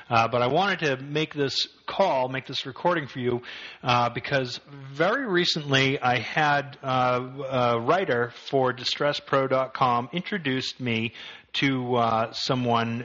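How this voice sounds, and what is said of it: Slightly congested voice from a cold. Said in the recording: “hear it in my voice a little bit this week, I've got just the slightest cold”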